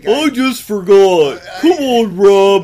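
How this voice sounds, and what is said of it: Imitates another person's voice. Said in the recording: “your best Matt impression? Because I really think you could do better than that.”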